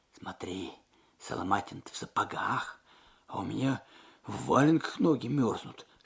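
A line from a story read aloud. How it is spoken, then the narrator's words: Whispered. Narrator (Russian): шепнул Алексей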